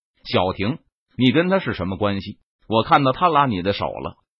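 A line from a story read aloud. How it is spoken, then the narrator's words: Cold voice. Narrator (Chinese): 常小婷俏脸冰冷，冷声说道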